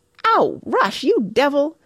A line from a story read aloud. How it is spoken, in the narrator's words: yelped Mona furiously, as a wet, generous handful of snow down her back brought the glorious daydream to a close